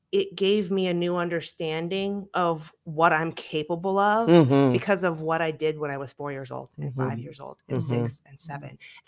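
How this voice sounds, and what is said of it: Shaky, trembling emotional voice. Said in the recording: “it has me shaking while I'm talking, and you probably hear it in my voice”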